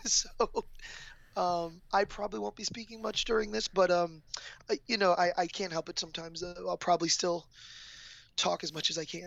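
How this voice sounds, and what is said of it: Damaged, strained-sounding voice. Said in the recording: “As you can tell, my voice is still trash... I'll be trying to rest my voice a little bit.”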